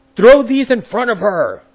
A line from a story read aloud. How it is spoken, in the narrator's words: My alter ego just kept screaming out